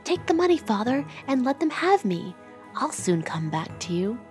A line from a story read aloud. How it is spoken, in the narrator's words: whispered in his ear